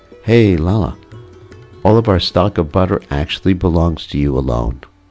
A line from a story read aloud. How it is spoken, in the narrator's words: tenderly caressing Krishna, she said